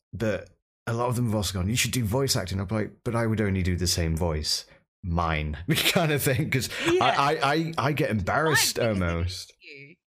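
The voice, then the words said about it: British accent, deep baritone voice. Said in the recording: “I come equipped with a British accent ... the tone of my voice, because it can be quite baritone”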